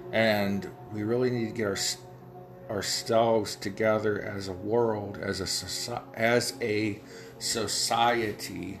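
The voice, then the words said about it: Ohio Valley American accent. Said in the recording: “my Ohio Valley accent gets in the way sometimes when I'm saying things like society”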